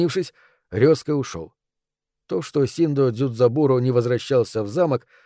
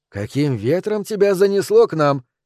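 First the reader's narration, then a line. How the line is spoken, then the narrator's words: Cheerful call. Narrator (Russian): весело окликнув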